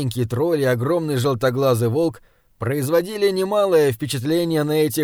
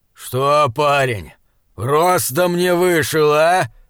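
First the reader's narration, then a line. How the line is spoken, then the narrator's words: Growling. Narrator (Russian): прорычал он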